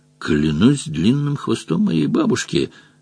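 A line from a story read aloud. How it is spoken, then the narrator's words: Amazed mutter. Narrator (Russian): пробормотал изумленно Росомах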